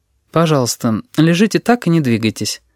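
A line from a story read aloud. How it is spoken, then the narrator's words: Completely calm. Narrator (Russian): абсолютно спокойно сказала она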